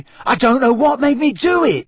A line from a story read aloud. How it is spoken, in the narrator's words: Ron gasped again